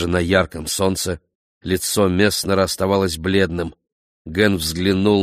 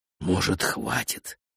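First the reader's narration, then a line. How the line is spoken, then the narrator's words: Whispered in English. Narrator (Russian): прошептал Ген по-английски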